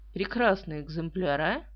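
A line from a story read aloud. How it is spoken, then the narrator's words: Quiet, smiling. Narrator (Russian): тихо улыбнулся полковник Фроубиш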